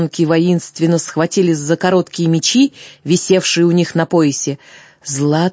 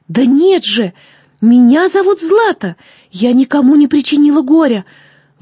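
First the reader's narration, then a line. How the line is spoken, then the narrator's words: Exclamation. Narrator (Russian): воскликнула она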